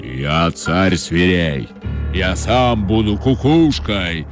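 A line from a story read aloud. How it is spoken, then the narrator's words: Lion's menacing roar. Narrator (Russian): грозно зарычал лев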